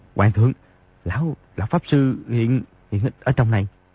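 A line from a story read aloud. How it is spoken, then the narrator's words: Soft speech. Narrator (Vietnamese): Di Tiểu Bảo khẽ nói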